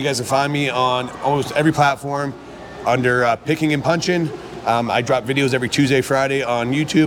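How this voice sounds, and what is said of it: Hoarse, strained voice. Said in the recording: “you hear me losing my voice.”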